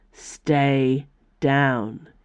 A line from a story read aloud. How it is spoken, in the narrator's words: Icaros growled